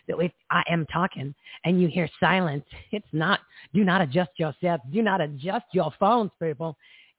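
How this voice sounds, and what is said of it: Raspy, froggy voice. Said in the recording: “can hear from my voice, I've been doing a lot of talking over the weekend. So it's a little raspy. ... It's a little froggy.”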